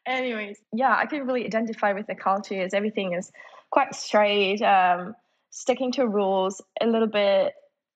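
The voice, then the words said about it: German accent. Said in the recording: “You're German? ... got that from the accents, the kind of bad World War II movies I've watched.”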